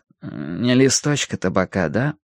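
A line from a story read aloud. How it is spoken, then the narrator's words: Muttering. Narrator (Russian): Якоб бормочет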